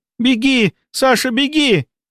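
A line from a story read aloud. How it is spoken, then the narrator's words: Frantic scream. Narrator (Russian): неистово закричала Лена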